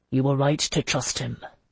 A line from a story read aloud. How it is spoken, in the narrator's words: Jocelyn said quietly